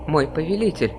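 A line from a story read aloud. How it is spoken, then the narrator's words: Guard asking, slightly trembling voice. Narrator (Russian): спрашивает один из гвардейцев слегка дрожащим голосом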